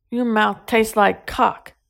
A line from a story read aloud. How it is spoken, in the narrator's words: he groaned